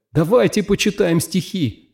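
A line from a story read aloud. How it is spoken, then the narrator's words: Pleading. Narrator (Russian): взмолился он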